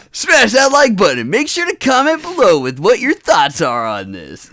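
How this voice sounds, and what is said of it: Exaggerated radio announcer voice. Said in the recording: “Perfect radio voice.”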